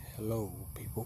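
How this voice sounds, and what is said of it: Put-on sexy voice. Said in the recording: “You try to make this sexy voice”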